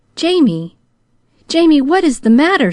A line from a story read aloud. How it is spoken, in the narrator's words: she cried